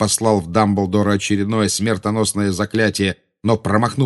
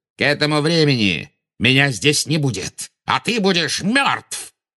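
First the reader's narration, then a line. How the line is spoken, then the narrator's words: Barked. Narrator (Russian): рявкнул Волан-де-Морт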